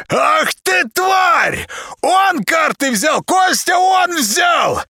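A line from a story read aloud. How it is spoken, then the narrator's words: Yelling. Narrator (Russian): Заорал Зайка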